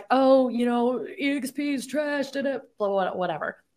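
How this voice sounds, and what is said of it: Mocking imitation voice. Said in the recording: “Did you like my mimicking voice there?”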